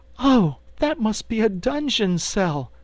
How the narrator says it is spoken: cried Dorothy, horrified

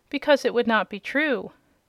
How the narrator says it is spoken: said Dorothy gravely

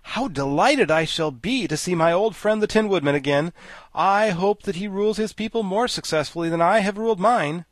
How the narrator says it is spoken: The Scarecrow became greatly animated at this sight, and exclaimed

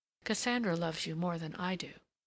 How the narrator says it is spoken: her murmur

